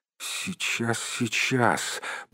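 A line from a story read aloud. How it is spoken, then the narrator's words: Muttered. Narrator (Russian): пробормотал Бильбо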